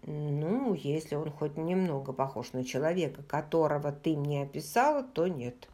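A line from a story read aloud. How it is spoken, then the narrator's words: Gentle. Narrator (Russian): мягко сказал Роджер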